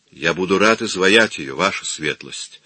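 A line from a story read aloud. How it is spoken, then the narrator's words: Calm reply. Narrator (Russian): спокойно ответил Микеланджело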